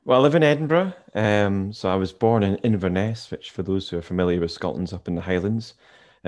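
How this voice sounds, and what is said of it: Lovely Scottish accent. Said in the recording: “that lovely accent you have”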